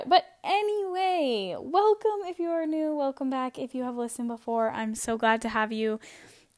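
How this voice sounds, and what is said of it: Hoarse, fading voice. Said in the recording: “I am losing my voice a little bit. I think I'm kind of getting sick ... I needed to stop and cough or clear my throat”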